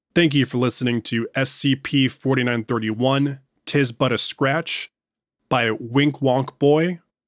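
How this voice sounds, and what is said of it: Slightly off, strained recovering voice. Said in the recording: “my voice is a little off... I got the COOF, the virus that shall not be named, and my voice isn't fully recovered yet... record without tearing up my throat too much”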